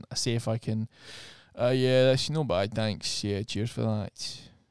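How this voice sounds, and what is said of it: Put-on broad Glaswegian accent. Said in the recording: “broad Glaswegian ... such a harsh cadence to it ... I see if I can pass as one of them with my old accent”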